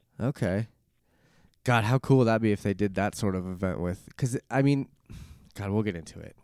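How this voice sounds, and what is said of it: Slightly weird voice from cold. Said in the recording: “battling a little bit of a throat cold right now, so my voice is a little weird, and I've been coughing a little bit”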